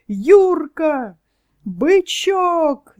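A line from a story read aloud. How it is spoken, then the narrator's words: Crowd yelling. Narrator (Russian): заорали на трибунах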